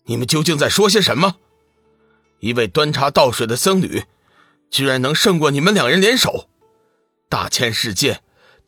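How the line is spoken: Angry scolding. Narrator (Chinese): 男子怒声骂道

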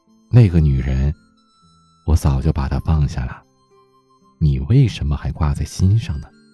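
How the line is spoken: Calm, indifferent. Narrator (Chinese): 师傅淡淡的回答说

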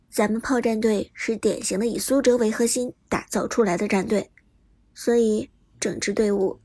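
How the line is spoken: Deep, grave. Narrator (Chinese): 杜鹃沉声道

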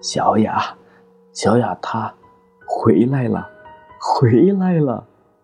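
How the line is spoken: Tearful murmur. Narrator (Chinese): 赵立清这才偷偷擦了擦眼角的泪水，嘴里喃喃着

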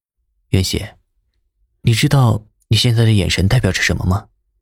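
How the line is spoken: Hoarse voice. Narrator (Chinese): 声音里面带着沙哑

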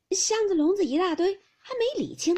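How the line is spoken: Laughing. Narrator (Chinese): 宝钗笑道

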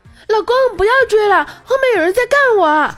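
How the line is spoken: Woman shouting. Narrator (Chinese): 女的大喊了一声

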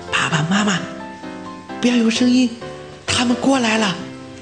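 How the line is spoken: Hushed whisper. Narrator (Chinese): 小火花小声地说

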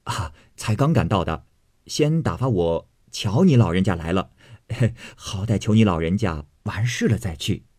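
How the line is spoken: Laughing. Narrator (Chinese): 贾蓉笑道

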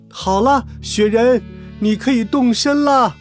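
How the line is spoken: Happy calling out. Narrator (Chinese): 小鼹鼠很高兴，对着高山呼喊

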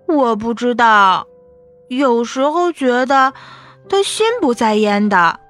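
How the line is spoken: Sighing. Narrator (Chinese): 青莲叹口气

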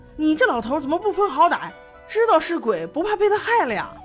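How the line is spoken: Furious. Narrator (Chinese): 江澄吃了一记，大怒

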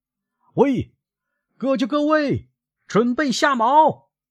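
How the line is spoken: Shouted command. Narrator (Chinese): 他转过身对船员们喊道

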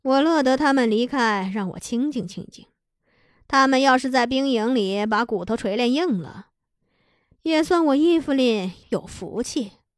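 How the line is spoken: Sighing. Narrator (Chinese): 他叹了一口气，说

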